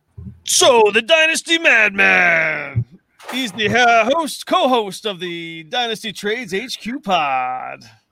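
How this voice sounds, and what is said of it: Fancy radio announcer voice. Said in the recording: “this is my fancy radio voice”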